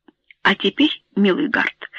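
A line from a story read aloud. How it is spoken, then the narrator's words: Stern voice, male. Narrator (Russian): строгим голосом сказал Каллингфорд Эбботт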